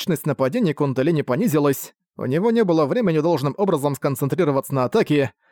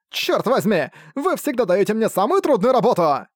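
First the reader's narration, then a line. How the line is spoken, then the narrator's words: Wailing complaint. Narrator (Russian): Нетопырь вопил свои жалобы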